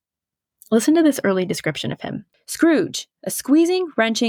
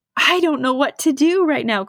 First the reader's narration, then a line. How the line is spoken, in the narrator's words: cried Scrooge, laughing and crying in the same breath